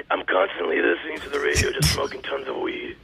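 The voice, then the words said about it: Rugged, gravelly Batman-style voice. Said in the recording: “go get yourself a lozenge. You know, maybe some kind of something with menthol ... I like the rugged voice ... It's manly ... I heard the Welsh pop out there for a minute”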